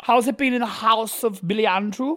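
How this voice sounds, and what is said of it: Weak attempt at German accent. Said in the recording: “I don't know what that accent was. It was supposed to be German.”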